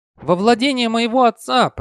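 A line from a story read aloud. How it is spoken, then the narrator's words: Shouting over wind. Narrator (Russian): прокричала, перекрывая ветер, поднятый движением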